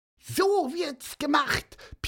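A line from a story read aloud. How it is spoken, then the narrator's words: Squeaky peep. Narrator (German): piepste Pieper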